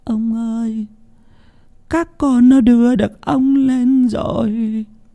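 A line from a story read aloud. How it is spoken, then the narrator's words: Tearful old woman whimpering. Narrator (Vietnamese): Bà Huyết mếu máo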